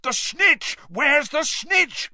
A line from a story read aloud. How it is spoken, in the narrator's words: bellowed Charlie along the row